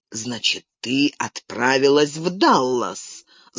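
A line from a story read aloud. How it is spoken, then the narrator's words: Angry. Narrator (Russian): злобно проговорил он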